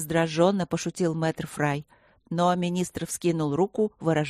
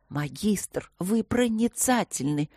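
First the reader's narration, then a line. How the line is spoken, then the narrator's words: Excited whisper. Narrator (Russian): зашептал воодушевленно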